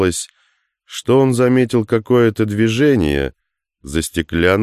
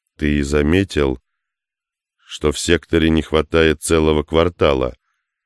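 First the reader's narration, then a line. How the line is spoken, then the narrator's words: Quiet question. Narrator (Russian): негромко спросил Устинова Хук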